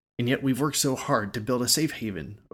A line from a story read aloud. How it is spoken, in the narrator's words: Oak exclaimed